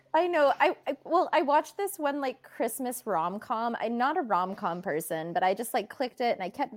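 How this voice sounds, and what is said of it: Usual voice. Nothing is said of it.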